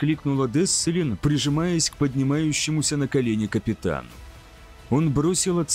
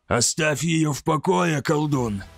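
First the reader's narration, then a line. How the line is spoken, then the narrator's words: Hoarse. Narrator (Russian): прохрипел Маверсал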